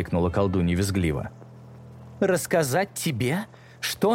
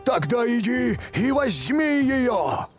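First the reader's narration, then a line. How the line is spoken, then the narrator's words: Loud bellow. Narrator (Russian): громко проревел бык с человеческой головой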